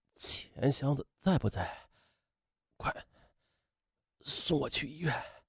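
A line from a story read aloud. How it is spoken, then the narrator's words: Very weak voice. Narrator (Chinese): 徐永新声音十分微弱的对徐静说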